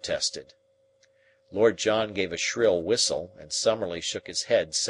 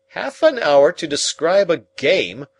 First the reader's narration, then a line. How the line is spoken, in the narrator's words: I cried indignantly